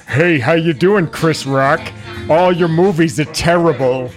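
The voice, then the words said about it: Cartoon character voice impression. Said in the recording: “Oh, it's ... Usually you do this voice”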